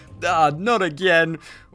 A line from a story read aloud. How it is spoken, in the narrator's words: scream